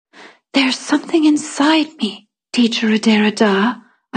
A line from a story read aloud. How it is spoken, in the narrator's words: I whispered